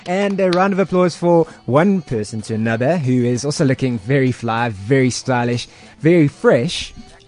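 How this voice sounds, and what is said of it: Game show host voice. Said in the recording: “That stupid game show voice on.”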